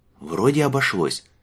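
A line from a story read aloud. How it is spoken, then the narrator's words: Relieved exhale. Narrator (Russian): с облегчением выдохнул Лючано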